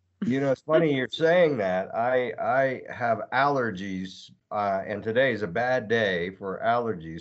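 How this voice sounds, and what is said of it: Congested voice. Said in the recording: “you might hear some allergies from me throughout the show ... my voice is a little bit, you know, congested sounding ... It's all because of allergies”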